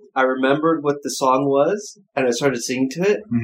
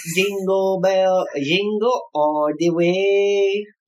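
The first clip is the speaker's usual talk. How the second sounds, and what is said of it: Sings in a put-on Spanish accent. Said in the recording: “What fucking accent is that? ... I was trying to do my Spanish one”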